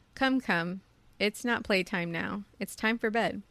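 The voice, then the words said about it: Stern fatherly voice. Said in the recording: “put on my best daddy voice”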